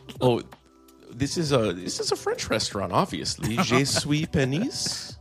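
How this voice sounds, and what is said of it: Put-on French accent. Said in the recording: “by your accent. I can tell this is a French restaurant ... a French accent ... You went up at the end there”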